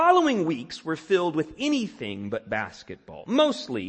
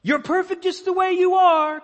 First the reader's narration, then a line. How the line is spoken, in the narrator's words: Coach Smooth hollered